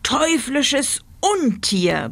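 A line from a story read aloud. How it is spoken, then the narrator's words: Roaring. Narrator (German): brüllte er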